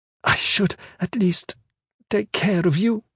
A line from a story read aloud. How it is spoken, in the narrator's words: she said, her voice gaspy, right on the verge of crying again